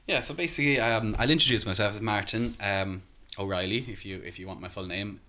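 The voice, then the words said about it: Irish accent. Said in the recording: “As you can tell by my accent, I'm not local. I'm from Ireland originally. ... would pick up an Irish accent”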